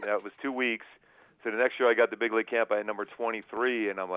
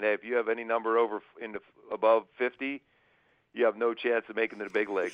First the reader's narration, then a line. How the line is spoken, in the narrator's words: laughing, saying